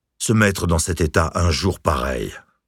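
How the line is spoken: Grumbled. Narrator (French): grogna à ses côtés

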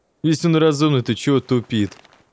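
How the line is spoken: Laughing. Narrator (Russian): Засмеялся второй из незнакомцев

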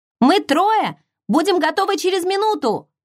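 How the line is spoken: Shouting. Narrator (Russian): крикнула Эмми

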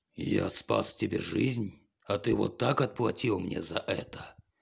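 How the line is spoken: Growling. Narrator (Russian): прорычал он

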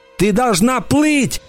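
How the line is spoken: Shouted. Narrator (Russian): крикнул я

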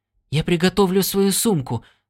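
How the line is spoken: Hurried. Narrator (Russian): торопливо сказал Стинни

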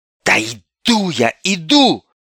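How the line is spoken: Irritated snap. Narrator (Russian): раздраженно бросила Ольга

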